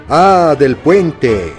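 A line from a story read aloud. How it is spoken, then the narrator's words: Shout. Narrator (Spanish): gritó una voz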